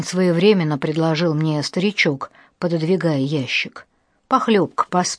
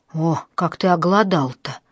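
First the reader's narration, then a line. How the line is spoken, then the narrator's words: Sympathetic old man's sigh. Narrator (Russian): сочувственно вздохнул старик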